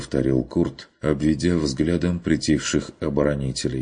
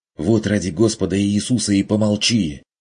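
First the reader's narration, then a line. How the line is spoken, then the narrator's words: Angry hiss. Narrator (Russian): прошипел Карл Штефан разозленно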